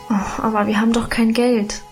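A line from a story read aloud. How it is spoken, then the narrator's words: Sighing. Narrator (German): seufzte ich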